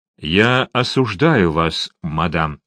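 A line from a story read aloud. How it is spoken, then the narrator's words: Plain. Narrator (Russian): сказал он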